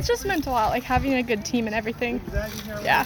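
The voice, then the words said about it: Emotional, choked-up voice. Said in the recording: “It's a little emotional, aren't we? ... It's emotional.”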